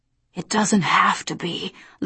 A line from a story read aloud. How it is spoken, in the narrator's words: Lucifer whispered